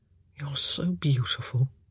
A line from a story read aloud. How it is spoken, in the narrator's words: he murmured